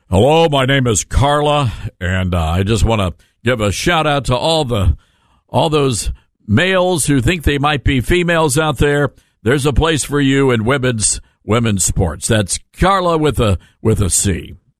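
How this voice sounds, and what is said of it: Very deep voice. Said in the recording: “Very deep voice you have.”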